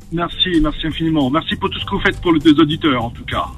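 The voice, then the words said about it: Southern French accent. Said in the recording (French): “J'aime bien ton accent, t'as un accent corse, non? ... Nîmes, un peu du sud, oui.”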